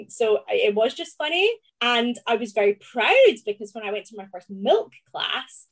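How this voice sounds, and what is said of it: Scottish Glaswegian accent. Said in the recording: “I'm somebody who's quite proud of my Scottish accent ... the Glaswegian pronunciation”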